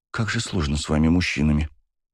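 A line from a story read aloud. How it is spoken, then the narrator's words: Sighing. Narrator (Russian): вздохнула Даша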